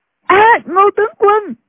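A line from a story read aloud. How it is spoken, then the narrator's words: Two girls crying out. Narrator (Vietnamese): Hai thiếu nữ đồng thời kêu lên, một cô gọi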